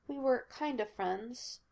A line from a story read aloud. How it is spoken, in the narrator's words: Molly said quietly